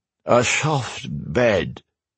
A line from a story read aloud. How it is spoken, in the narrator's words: Gareth slurred